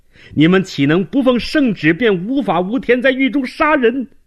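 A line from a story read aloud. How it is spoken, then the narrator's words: Hurried shout. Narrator (Chinese): 周茂兰连忙从床下爬出来喊道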